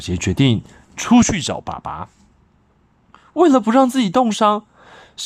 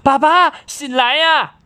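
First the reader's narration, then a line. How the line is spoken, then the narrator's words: Anxious shouting. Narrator (Chinese): 小杰着急的喊着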